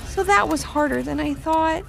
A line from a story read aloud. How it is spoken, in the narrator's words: said Ivy timidly